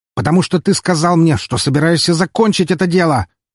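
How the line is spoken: Barked harshly. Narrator (Russian): рявкнул на него Филинов

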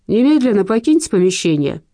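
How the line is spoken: Stern. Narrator (Russian): строго произнес Заренко

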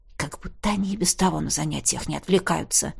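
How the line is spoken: Whisper. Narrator (Russian): прошептал Кай

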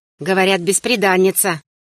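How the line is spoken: Brother's skeptical snort. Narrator (Russian): хмыкнул брат Ильяс

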